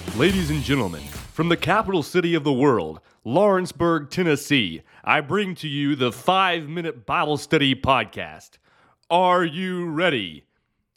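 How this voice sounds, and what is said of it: Booming ring announcer impression. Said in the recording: “my best Michael Buffer impersonation”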